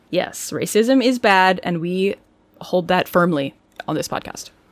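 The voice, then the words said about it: Sarcastic-sounding delivery. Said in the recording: “I don't know why I said that like it was sarcastic ... are you being sarcastic”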